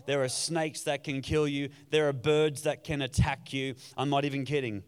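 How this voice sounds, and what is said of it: Australian accent. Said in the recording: “accent you hear is an Australian accent ... I do have an Australian accent.”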